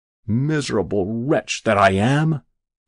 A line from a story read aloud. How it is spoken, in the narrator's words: groaned Jabez Stone